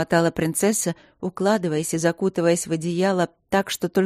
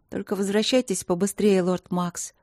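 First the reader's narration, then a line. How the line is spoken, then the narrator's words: Quiet request. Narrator (Russian): попросила она тихо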